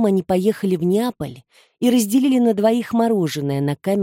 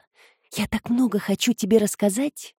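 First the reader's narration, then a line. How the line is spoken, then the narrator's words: Whisper. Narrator (Russian): Роза Мария прошептала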